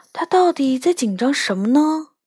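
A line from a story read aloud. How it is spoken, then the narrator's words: Quiet muttering. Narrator (Chinese): 我小声嘟囔着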